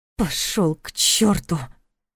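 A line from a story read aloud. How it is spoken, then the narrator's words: Hissed through teeth, recovering. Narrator (Russian): процедила она, когда, наконец, снова смогла говорить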